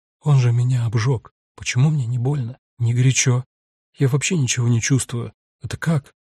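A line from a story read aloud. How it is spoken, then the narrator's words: Barely audible soundless question. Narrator (Russian): Женщина беззвучным, несуществующим, даже Сайрусу едва слышным голосом спрашивает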